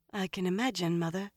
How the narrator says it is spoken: Elaine said faintly

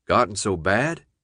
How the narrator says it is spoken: the guard asked

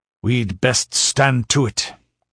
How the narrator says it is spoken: growled the Cimmerian

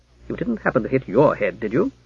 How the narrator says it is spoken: said the female voice sternly

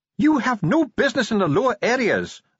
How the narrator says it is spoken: snapped Ardent

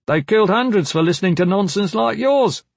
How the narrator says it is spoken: someone shouted

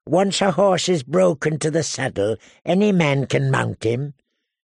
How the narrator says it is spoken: he said in a soft voice

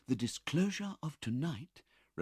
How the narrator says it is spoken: replied Rose softly

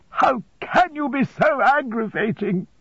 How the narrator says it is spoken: cried my mother, shedding more tears than before

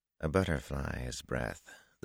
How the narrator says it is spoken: the fellow murmured

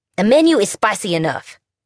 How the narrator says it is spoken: Fee snapped, clearly offended

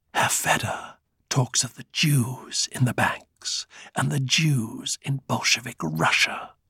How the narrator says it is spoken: he said in a quieter voice, almost a whisper, but one which he knew with confidence carried into every ear in the room

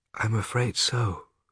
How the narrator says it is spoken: said Mother, nodding her head sadly

